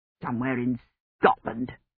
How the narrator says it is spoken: he said bitterly

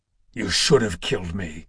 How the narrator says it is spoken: Kratos growled

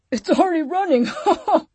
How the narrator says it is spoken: Mark said, laughing

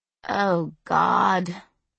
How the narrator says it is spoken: Esther groaned

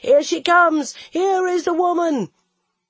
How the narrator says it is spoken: each shouting towards the mountain face

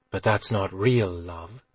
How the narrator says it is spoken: Guinevere said quietly

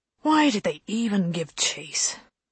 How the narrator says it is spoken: Holston asked Lane wearily

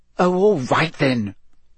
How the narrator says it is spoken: Hermione snapped

